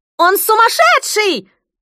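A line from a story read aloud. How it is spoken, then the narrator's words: Piercing female shriek. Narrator (Russian): взвизгнул пронзительный женский голос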